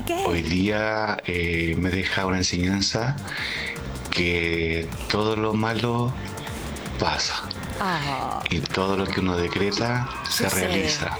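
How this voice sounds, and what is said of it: Whispering. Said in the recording (Spanish): “Me puse nerviosa con tanto susurro.”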